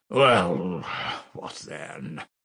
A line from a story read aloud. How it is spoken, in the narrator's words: Ilya Petrovitch drawled with gentlemanly nonchalance